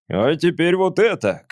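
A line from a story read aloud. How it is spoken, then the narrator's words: Shouted. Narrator (Russian): крикнул он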